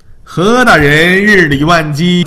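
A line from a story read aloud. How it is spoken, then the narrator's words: Smiling greeting. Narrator (Chinese): 纪晓岚笑迎道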